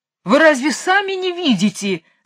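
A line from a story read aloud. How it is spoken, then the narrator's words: Wailing yell. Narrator (Russian): завопил король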